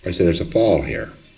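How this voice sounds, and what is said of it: Exaggerated, histrionic disappointed tone. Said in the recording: “the amount of disappointment which I can get into my voice is histrionic”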